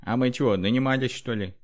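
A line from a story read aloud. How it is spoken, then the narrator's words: Shout. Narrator (Russian): крикнул кто-то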